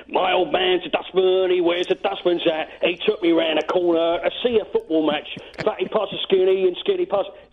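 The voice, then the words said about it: Thick Cockney accent, sing-along. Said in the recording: “strong Cockney ... Can you give me a little Cockney sing-along? ... that thick accent”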